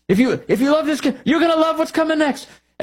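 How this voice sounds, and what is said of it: Made-up put-on accent. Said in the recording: “I'm making up an accent here.”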